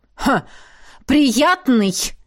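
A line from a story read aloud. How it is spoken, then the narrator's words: Menacing phantom snorting. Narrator (Russian): фыркнул мой грозный фантом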